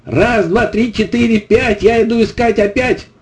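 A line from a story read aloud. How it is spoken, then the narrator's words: Shouted again. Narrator (Russian): Костик крикнул снова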